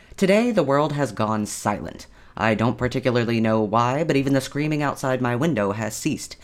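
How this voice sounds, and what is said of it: Distorted voice, jaw locked. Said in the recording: “if my voice sounds a bit off ... my jaw has been locked at an odd angle”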